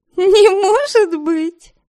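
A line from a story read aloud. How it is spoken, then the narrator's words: Laughing. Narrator (Russian): Смеясь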